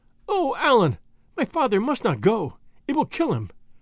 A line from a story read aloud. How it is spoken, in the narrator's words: exclaimed Marie, who took a more serious view of his case